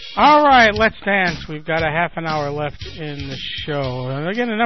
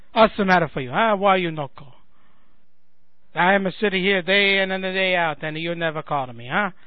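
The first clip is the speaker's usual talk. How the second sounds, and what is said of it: Bad put-on Italian accent. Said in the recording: “my bad Italian accent”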